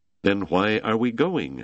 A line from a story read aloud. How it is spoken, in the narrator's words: Wetzel asked